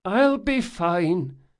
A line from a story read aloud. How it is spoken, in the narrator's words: she groaned